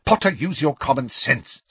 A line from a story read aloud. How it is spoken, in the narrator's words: snapped Professor McGonagall, with an abrupt return to her usual manner